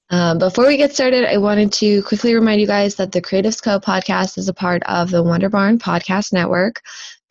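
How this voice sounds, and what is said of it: Slightly hoarse voice. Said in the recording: “I'm a little hoarse today”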